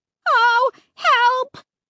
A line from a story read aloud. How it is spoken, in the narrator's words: me shrieking like that